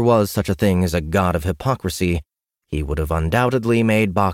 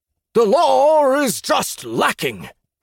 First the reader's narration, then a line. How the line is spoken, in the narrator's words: roared the leader